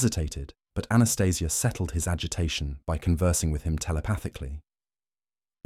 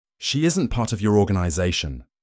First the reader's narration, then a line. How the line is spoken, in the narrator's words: Remy barked back